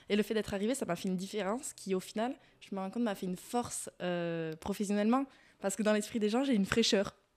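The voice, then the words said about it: Southern French accent. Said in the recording (French): “mon accent ... la fille du sud ... des intonations différentes”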